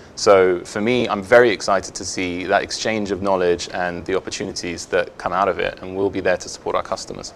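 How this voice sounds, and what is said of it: British English accent. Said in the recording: “I detect from your accent that you may hail from the United Kingdom”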